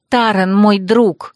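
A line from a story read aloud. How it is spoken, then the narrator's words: Snapping. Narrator (Russian): огрызнулась Хлоя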